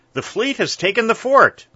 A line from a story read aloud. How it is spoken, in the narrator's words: he cried